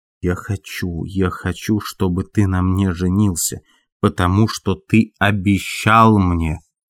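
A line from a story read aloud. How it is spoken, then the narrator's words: Through gritted teeth, shaking with rage. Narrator (Russian): Она произнесла сквозь зубы, дрожа от бешенства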